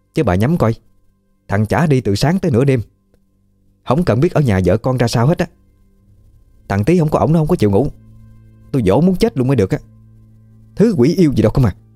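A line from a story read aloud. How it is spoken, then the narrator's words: Resentful, angry. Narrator (Vietnamese): bà hậm hực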